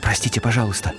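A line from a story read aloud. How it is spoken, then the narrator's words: Whispering. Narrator (Russian): прошептал Гарри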